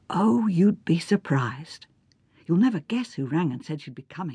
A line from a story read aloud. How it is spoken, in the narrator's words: She whispered